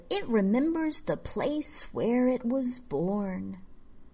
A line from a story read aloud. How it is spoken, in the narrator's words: the witch interrupted, her voice gone dreamy like a child's half asleep, like some seer's in some cave